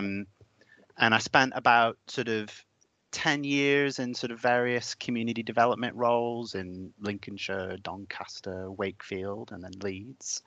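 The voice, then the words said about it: American accent. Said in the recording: “in America, where I'm from. So if anyone spots my odd accent, that will be why.”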